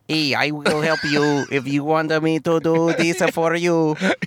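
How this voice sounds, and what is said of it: Robot voice with an accent. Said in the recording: “But his robot also has an accent.”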